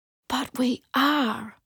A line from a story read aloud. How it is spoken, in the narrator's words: I whispered